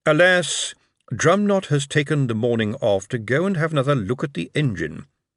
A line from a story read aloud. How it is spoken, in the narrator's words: Lord Veterinary cleared his throat again and said solemnly